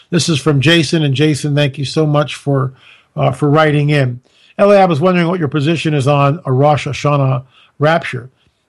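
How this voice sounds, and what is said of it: Strained, failing voice. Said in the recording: “My voice is giving out, folks.”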